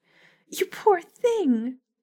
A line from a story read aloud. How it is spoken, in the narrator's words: cried out